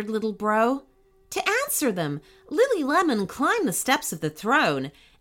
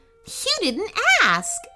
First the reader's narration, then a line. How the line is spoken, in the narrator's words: laughed the princess